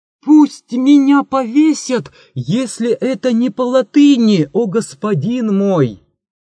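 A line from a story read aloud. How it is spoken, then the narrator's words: Sudden shout. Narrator (Russian): вдруг закричал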